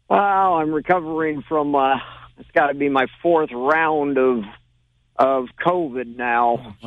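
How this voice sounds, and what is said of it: Voice slightly off, unwell. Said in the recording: “Sorry, my voice is a little off.”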